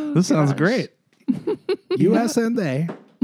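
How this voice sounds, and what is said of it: Borat-style comic accent impression. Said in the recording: “my Borat impression. That was pretty good. I like that. That sounded nice.”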